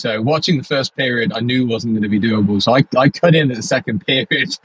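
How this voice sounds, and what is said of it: British accent. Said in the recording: “for those of you that can't tell by the accent... I'm obviously based in the UK”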